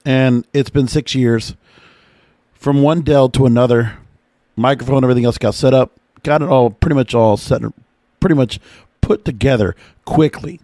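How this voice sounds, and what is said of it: Strained, slightly hoarse voice. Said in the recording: “my voice is a little bit off ... yelling at the damn TV screen really just strained my voice”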